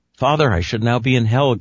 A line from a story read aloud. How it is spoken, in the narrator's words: gasped the boy